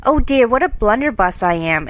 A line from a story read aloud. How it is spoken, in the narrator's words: exclaimed Jo